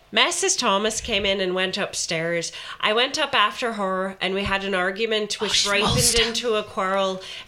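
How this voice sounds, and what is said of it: Put-on Irish accent. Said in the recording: “Accent. Go on, son. You've got this. ... I thought you were gasping at the accent.”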